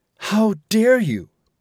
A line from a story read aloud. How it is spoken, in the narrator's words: exclaimed the passenger